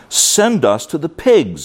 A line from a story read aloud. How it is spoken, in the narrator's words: begged Jesus, saying